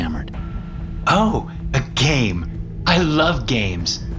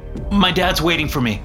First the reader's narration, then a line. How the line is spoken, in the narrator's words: I replied quickly